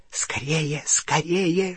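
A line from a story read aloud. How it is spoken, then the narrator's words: Hissed in ear. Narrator (Russian): шипел ему в ухо крюкохват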